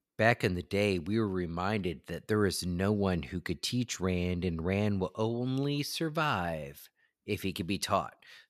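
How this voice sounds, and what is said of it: Calm, measured radio announcer voice. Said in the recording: “Back to my NPR voice.”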